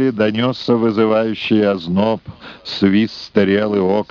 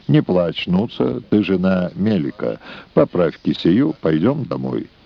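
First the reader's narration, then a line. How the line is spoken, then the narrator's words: Fairly calm. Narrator (Russian): Вардан довольно спокойно сказал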